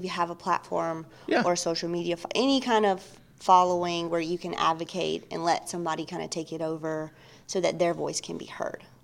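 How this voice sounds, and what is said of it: Mississippi accent. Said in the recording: “I dig your accent... You're not from East Texas... I am originally from Mississippi.”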